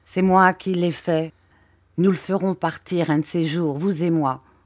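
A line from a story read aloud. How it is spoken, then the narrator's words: Plain. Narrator (French): dit Monsieur Dick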